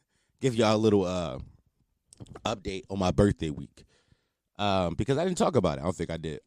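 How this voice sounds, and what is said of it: Monotone, subdued, low-energy voice. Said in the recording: “this voice sounds really monotone this week because I'm not as hyped ... my voice kind of like subdued, relaxed”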